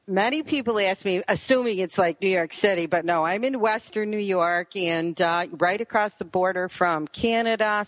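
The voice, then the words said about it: Buffalo, Western New York accent. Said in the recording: “What is your accent? ... It's Buffalo, New York. ... everybody says I have this accent ... So maybe it's like a lake accent. ... And you both have it.”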